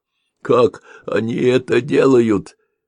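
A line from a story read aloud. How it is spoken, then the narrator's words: Wizard's exclamation. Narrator (Russian): воскликнул чародей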